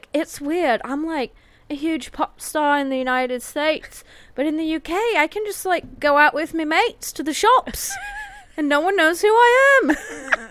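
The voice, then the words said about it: Exaggerated British-sounding imitated voice. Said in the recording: “Is she a British pirate? Like, why does she talk like that? What was that impression?”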